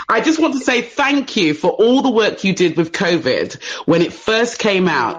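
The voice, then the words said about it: English accent. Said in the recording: “I'm calling from England ... that's what I like the accent”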